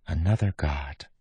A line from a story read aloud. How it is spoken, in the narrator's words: Marisi whispered